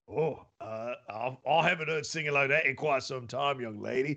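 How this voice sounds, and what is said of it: Weird put-on accent drifting Australian. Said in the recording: “I can barely understand you. Your accent is so weird. ... Oh, I'm sliding into Australia.”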